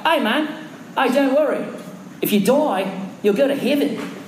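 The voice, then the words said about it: Put-on New Zealand accent. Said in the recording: “That's my New Zealand accent.”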